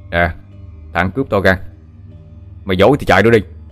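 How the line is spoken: Shout. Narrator (Vietnamese): miệng quát lên

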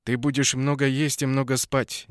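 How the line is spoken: Firm commanding tone. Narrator (Russian): непререкаемым тоном заявил он

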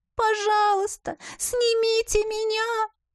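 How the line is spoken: Whimpering. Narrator (Russian): Снова заскулила пленница

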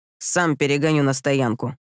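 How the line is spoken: Grumbling. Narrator (Russian): проворчал он

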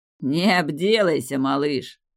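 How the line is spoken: Mocking. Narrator (Russian): насмешливо сказал

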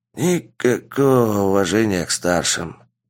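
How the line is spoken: Hissing old man. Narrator (Russian): прошипел поднявшийся старик

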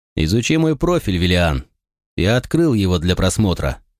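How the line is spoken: Calm, careful reply. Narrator (Russian): спокойно ответил я, стараясь не шевелиться, чтобы не спровоцировать агрессию

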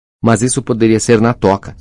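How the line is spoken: Loud exclamation. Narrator (Portuguese): exclamou Rony em voz alta

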